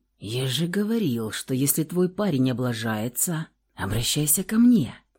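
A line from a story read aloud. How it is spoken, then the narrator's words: Hiss close to ear. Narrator (Russian): прошипел над ее ухом охранник Дима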